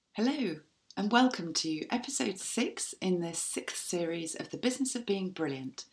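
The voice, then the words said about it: Croaky, strained voice. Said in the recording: “as you can probably hear, I've lost my voice this week. It was a little bit croaky”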